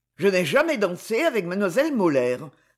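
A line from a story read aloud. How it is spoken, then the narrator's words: Cold reply. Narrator (French): répondit-il froidement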